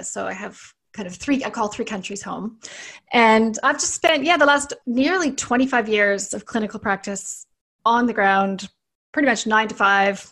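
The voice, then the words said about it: Canadian accent. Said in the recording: “I'm Canadian, as you can probably hear from my accent”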